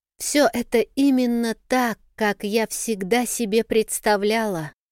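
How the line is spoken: Whisper. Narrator (Russian): прошептала Кимиан

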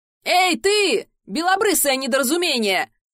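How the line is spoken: Shouted from a distance. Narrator (Russian): крикнули откуда-то со стороны

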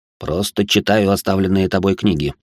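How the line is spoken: Grumbling. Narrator (Russian): проворчал он

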